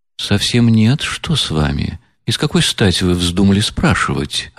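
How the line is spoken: Quiet, serious, slightly surprised. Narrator (Russian): ответила она тихо и серьезно, и как бы с некоторым удивлением

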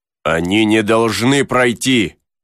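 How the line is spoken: Shouting. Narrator (Russian): закричал Пенкроф

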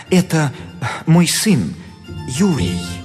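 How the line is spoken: Guilty tone. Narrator (Russian): Репин виноватым голосом отвечал

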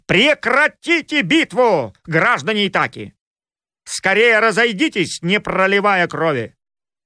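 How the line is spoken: Menacing shout, goddess. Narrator (Russian): грозно не крикнула богиня Афина

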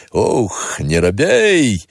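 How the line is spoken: Clear, sad, good-natured cursing. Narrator (Russian): довольно внятно, с какой-то грустью и добродушием выругался

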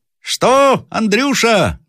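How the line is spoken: Shouting. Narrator (Russian): закричал наконец сержант

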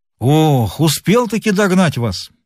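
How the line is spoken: Exclaimed. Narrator (Russian): воскликнул Горохов

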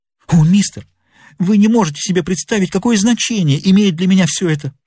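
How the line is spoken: Small man exclaiming. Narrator (Russian): воскликнул маленький человек

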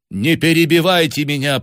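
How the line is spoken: Commanding woman's voice. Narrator (Russian): повелительным тоном произнесла женщина

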